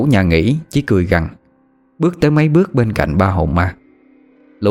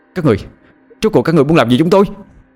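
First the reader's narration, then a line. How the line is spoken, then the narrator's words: Angry shouting. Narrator (Vietnamese): Hoàng giận dữ la hét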